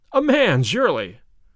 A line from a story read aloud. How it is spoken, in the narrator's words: I cried